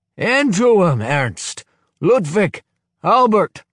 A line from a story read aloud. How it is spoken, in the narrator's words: roars Kozola